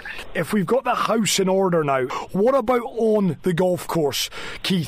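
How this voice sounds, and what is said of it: Scottish accent. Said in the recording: “I hear your Scottish accent”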